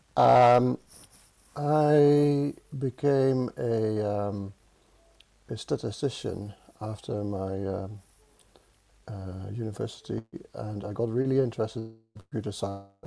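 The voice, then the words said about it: Dutch accent in English. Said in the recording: “I'm Dutch, as you can hear from my accent. It never goes away.”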